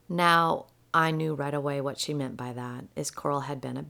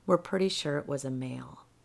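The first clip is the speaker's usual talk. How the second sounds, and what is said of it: Very soft, quiet voice. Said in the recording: “in a very soft voice”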